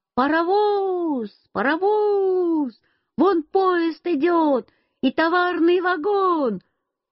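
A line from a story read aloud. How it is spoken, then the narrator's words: Sudden shout. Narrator (Russian): вдруг я закричал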